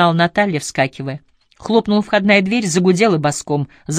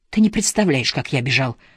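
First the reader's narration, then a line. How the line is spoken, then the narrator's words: Boy's delighted breathless exclamation. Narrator (Russian): С восторгом выдохнул мальчик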